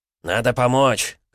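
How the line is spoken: Shouted. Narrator (Russian): крикнул Энтони

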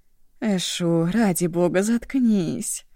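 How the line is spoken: Groaning, sniffling. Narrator (Russian): Простонала Ашун, протяжно хлюпая носом

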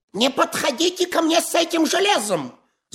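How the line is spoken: Shrieked. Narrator (Russian): завизжал Паниковский

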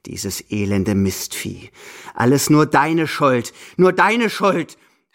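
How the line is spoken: Angry outburst. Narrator (German): fällt wütend über mich her

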